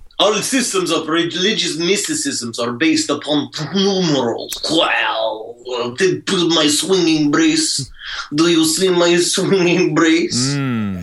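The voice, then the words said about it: Unintelligible impression of Madame Blavatsky. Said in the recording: “unintelligible ... do an incredibly accurate impression of Madame Helena Blavatsky”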